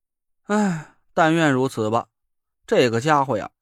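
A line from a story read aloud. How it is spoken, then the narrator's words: Sighing. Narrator (Chinese): 我叹了口气说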